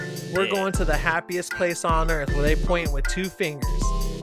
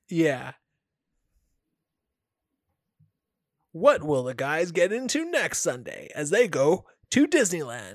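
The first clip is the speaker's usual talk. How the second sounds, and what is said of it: TV announcer voice. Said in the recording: “That announcer voice guy.”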